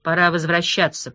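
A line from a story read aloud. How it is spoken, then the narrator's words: Mumbling. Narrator (Russian): пробормотал Умба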